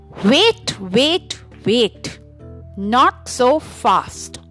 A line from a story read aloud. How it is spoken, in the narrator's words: Silverthroat said